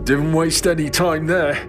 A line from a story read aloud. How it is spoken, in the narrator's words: I said, the sound rumbling through my now thick nose